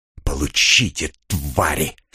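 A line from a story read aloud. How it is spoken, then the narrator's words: Hiss. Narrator (Russian): прошипел Кир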